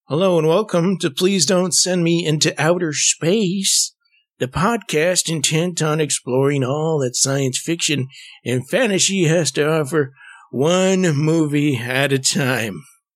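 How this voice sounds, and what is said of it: Put-on old man voice. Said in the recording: “What voice was that? ... It was kind of my old man voice,”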